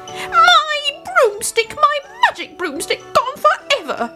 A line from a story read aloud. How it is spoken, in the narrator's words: she howled